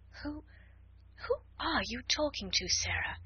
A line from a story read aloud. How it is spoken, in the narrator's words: she gasped out